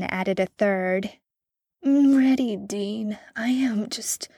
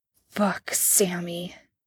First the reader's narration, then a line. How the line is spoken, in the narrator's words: Dean grunted